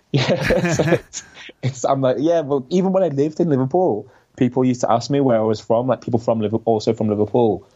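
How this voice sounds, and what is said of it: Scouse (Liverpool) accent. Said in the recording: “I do have a bit of a Scouse accent ... some people say to me, oh my God, like your accent is so strong”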